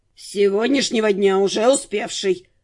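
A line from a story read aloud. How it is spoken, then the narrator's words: Grumbling. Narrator (Russian): проворчал Нортон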